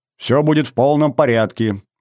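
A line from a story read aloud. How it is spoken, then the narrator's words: Cheerful. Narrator (Russian): бодро сказал я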